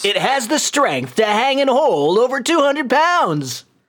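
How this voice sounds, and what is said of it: Infomercial pitchman impression. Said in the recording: “Billy Mays”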